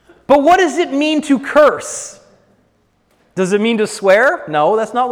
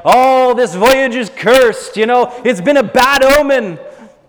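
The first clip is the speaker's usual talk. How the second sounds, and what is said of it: Bad put-on old mariner accent. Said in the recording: “Horrible mariner's accent.”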